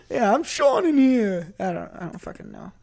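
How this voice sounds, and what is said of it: Put-on New York accent. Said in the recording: “sounds like he's from New York ... the accent's getting worse.”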